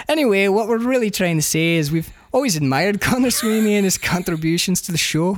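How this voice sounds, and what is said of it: Good put-on Scottish accent. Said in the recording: “that's a really good Scottish accent.”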